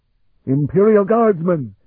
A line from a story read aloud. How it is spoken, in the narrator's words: Scarpa bellowed